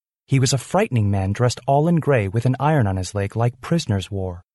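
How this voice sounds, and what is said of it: Usual voice. Nothing is said of it.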